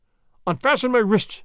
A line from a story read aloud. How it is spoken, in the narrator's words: he cried